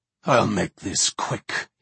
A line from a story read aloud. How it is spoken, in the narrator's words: he rasped